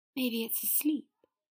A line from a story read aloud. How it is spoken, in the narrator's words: Potter breathed